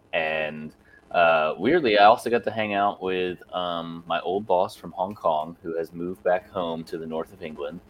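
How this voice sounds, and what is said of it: Worn, strained voice. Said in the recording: “I sang until my voice sounds the way that it does now.”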